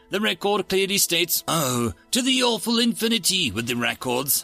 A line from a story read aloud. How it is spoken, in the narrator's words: I shouted